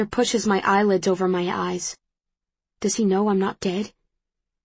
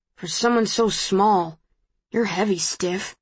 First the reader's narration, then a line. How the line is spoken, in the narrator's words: he mutters